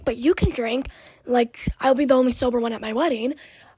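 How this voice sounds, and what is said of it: Raspy, croaky voice. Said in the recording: “my voice is so raspy and I sound like a freaking frog”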